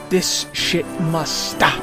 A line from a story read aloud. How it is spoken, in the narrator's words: the lieutenant hissed